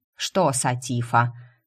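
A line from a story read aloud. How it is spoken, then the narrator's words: Grumbling. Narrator (Russian): продолжала бурчать экономка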